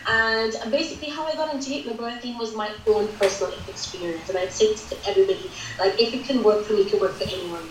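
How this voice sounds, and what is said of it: Vincentian Caribbean accent. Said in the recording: “where this accent is from. I am from the Caribbean island of St. Vincent and the Grenadines originally ... so there's not a British accent.”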